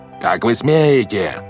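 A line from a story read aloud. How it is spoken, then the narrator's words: Yelling. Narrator (Russian): заорал Стефано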